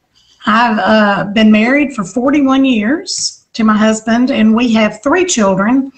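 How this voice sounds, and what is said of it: Southern American accent. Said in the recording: “that explains the southern accent that I have.”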